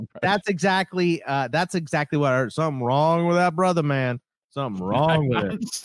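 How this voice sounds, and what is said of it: Donovan McNabb impression. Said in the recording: “my Donovan McNabb impression ... Donovan McNabb impression”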